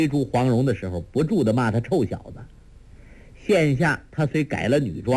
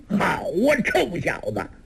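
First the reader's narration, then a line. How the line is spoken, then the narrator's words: Roaring. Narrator (Chinese): 侯通海虎吼一声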